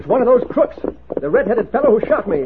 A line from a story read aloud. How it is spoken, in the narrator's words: Clem Babson exclaimed